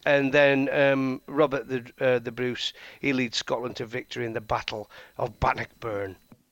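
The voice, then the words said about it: Weak put-on Scottish accent. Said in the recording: “I love ... Scottish accent ... He got a bit East Lancs, didn't he? ... It wasn't great, was it?”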